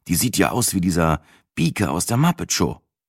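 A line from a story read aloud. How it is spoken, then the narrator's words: Groaning. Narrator (German): stöhnte ich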